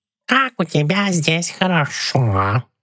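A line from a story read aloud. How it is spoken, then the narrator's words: Purring cat. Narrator (Russian): промурлыкал кот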